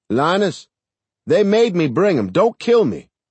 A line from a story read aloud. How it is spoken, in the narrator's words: a voice he knew yelled out